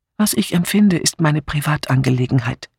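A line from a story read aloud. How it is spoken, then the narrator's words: Calm reply. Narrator (German): entgegnete sie ruhig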